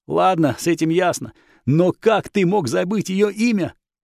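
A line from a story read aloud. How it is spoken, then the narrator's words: Monk's righteous angry exclamation. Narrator (Russian): Пылая праведным гневом, воскликнул монах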